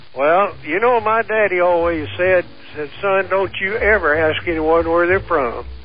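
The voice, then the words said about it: Southern American accent. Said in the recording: “that Southern accent? Because you sound like sort of a Southern Santa.”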